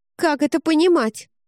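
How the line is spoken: Sharp curt retort. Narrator (Russian): резко бросила Айрис

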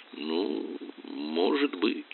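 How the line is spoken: Mutter. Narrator (Russian): Он пробормотал

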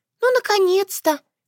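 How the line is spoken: Squeaked. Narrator (Russian): пискнула она

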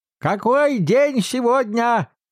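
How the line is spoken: Exclaimed. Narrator (Russian): воскликнул Скрудж, обращаясь к мальчику

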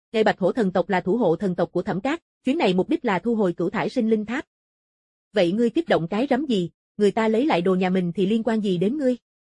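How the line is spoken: Angry. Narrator (Vietnamese): Diệp Dực Thần tức giận

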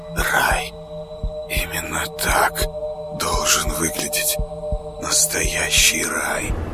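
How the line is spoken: Soundless whisper. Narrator (Russian): шептал одними губами

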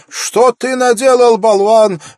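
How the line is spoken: Angry shouting. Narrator (Russian): в гневе закричала она

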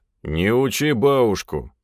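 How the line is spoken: Muttered. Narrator (Russian): пробурчал следом Головин

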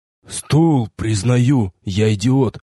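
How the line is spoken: Hoarse wheeze. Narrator (Russian): неудачливый партнер прохрипел

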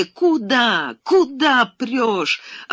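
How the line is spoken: Hoarse shouting. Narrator (Russian): охриплым голосом кричала она

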